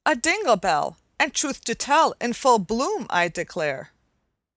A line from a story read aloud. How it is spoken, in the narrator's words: And Mary exclaimed